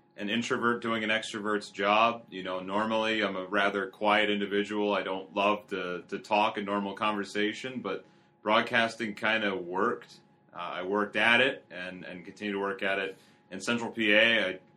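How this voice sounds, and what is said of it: Philadelphia-area American accent. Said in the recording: “I am not from here, if my accent tells you anything. I'm from outside Philly originally.”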